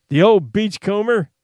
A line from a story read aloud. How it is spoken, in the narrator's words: Lask Finiston cried